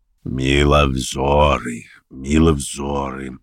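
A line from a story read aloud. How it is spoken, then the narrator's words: Husky bass, slight exclamation. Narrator (Russian): изволил он выговорить сиплым баском и с легким восклицанием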